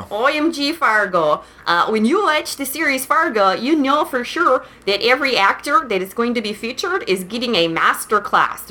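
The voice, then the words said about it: Put-on regional accent. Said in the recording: “I'll stop the accent.”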